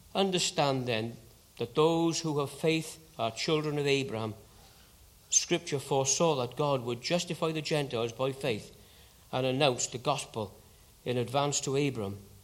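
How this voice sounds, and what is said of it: Welsh accent. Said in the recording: “So good to have the Bible read with a Welsh accent.”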